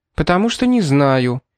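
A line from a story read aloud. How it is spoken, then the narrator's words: Sharp, pained. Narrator (Russian): резко ответила Берг, поморщившись то ли от страха, то ли от печальных воспоминаний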